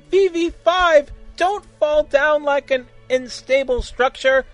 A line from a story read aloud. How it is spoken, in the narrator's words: shouted Siner